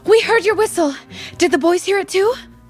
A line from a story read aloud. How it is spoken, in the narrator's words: Molly asked breathlessly